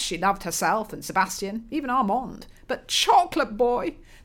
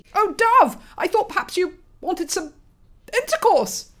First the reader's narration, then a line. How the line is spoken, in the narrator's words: Roland squeaked, his nose scrunched in terror